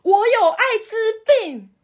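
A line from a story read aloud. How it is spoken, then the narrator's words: Shouting. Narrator (Chinese): 他就喊了一句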